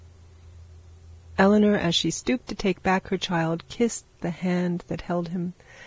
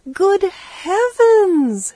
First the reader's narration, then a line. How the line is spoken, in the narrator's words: exclaimed